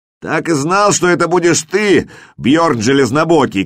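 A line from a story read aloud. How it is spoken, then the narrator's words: Shout. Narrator (Russian): крикнул Хрёрик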